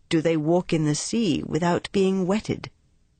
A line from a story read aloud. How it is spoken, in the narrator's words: She answered